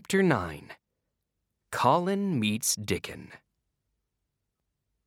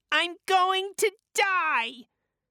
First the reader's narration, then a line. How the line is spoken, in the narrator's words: cried Colin